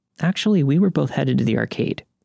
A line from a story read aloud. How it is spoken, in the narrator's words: says harshly